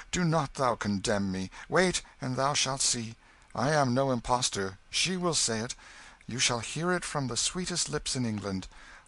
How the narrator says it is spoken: cried Hendon

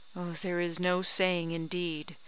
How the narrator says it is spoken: replied Harriet rather solemnly

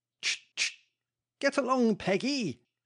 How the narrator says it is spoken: half exclaimed, half whistled the equestrian

